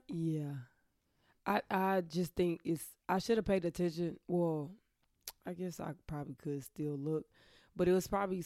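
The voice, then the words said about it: Hoarse, nearly lost voice. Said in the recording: “my voice is gone. ... I did notice. ... Allergies.”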